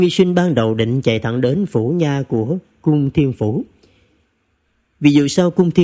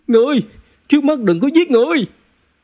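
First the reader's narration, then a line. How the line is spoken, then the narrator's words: Shouting while running. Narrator (Vietnamese): Tôn Nghi Sinh vừa chạy vừa hét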